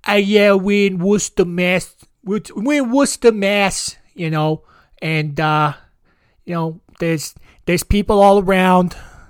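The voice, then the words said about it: Exaggerated mock Boston accent. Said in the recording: “people from Massachusetts always talk like they have like a mouthful of mashed potatoes ... the Boston accent is beyond dumber sounding than a Southern accent”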